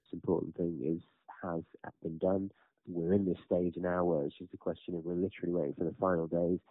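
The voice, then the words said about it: Relaxed, calm voice. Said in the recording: “I'm a lot more relaxed. You can probably hear that in my voice.”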